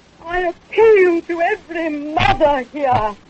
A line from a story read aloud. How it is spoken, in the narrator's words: cried in a high voice